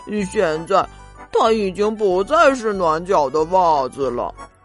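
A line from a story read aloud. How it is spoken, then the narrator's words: Mumbling. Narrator (Chinese): 他嘟嘟囔囔的说道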